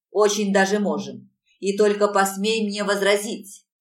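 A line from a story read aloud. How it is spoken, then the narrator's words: Goblin's growl. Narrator (Russian): рыкнул гоблин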